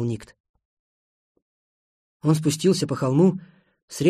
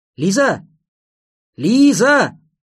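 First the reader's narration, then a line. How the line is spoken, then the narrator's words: Shouted. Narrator (Russian): Никт крикнул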